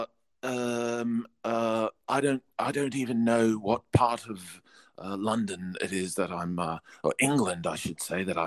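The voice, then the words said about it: Polite British accent. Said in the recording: “probably a bit more of my Australian accent is coming through when I talk. This is just to me, this is just polite British accent.”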